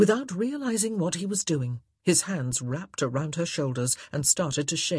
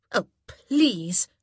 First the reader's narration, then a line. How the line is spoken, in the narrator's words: she scoffed